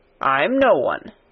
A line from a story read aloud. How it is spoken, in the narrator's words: said old Ben dryly